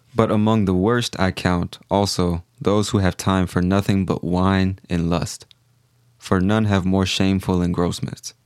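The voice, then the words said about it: Somewhat monotone reading voice. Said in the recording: “my voice is a little monotone,”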